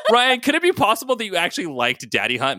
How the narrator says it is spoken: Maddie yelled

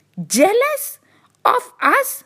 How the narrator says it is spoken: exclaimed the side roads

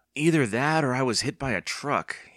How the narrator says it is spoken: he groaned

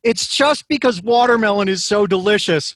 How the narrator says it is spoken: decide I should yell out

